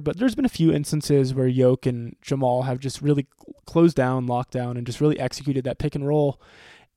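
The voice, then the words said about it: Raspy voice from a cold. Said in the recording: “I'm dealing with a bit of a cold, so I do apologize for a bit of a raspy voice ... my voice might sound a little different”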